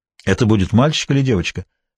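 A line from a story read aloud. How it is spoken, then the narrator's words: Plain. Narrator (Russian): спросил Фергюс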